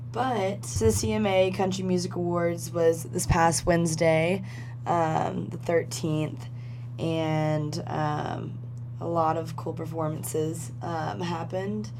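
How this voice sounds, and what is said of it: Rough, sick-sounding voice. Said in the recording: “My voice sounds terrible. I think I'm getting a cold”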